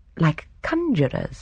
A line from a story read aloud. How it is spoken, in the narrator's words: Miss Marple murmured vaguely